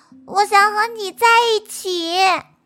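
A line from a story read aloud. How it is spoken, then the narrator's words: Fierce roar. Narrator (Chinese): 阿瑟凶巴巴的吼了一声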